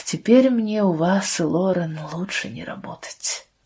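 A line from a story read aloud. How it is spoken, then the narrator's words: Heavy sigh, then speaking. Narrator (Russian): Тяжело вздохнув, Лия сказала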